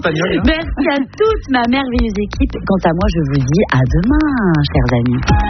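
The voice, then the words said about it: Put-on Spanish accent. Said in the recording (French): “J'avais envie de faire un petit accent espagnol.”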